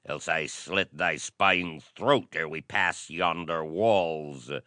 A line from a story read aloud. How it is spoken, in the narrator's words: he snarled